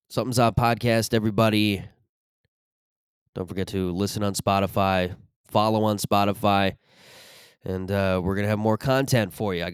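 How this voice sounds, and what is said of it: Rough, raspy smoker-like voice. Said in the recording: “My voice is like, I don't know, I smoked a bunch of cigarettes this weekend.”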